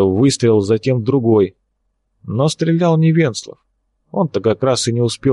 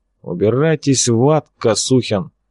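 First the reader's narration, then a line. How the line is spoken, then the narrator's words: Through gritted teeth. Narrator (Russian): процедил он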